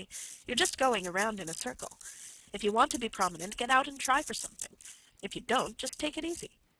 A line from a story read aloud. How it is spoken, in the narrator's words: said Carrie impatiently